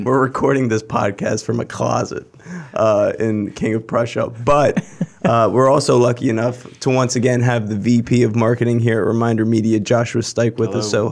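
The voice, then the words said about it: Sick, rough voice. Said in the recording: “I'm feeling a little bit under the weather. You can probably hear it in my especially unattractive voice this week... this is not my new radio voice. This is me just being very, very ill.”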